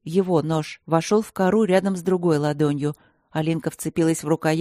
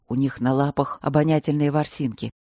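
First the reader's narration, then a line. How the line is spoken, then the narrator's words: Inaudible whisper in ear. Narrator (Russian): неслышно шепнул Трот на ухо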